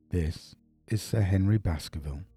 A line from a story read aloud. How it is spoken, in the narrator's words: said Dr